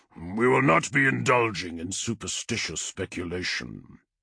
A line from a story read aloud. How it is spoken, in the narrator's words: the Primarch growled